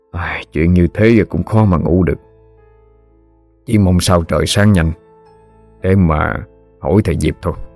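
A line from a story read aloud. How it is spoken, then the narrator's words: Sighing. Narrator (Vietnamese): thở dài nói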